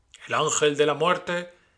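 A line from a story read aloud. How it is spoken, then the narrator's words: Speaker's exclamation. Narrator (Spanish): exclamó el orador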